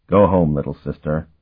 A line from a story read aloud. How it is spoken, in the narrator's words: he told her in a gentle voice